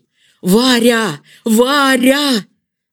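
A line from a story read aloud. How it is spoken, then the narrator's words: Strained shout. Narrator (Russian): закричал, стараясь приподняться на локтях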